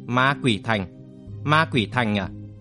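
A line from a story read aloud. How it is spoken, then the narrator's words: Mutter. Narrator (Vietnamese): Lạt Ma kia lẩm bẩm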